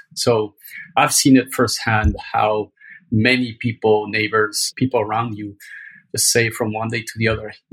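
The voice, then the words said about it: Mexican accent. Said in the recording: “my accent, I'm from Mexico”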